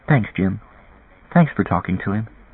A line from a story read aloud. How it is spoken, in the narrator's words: She said softly